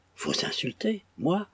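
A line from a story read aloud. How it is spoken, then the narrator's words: Exclaimed. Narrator (French): s'écria John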